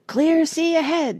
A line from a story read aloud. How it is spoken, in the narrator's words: shouted Parrot